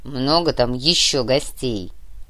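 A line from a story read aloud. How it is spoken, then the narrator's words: Grumbling. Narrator (Russian): проворчал Нур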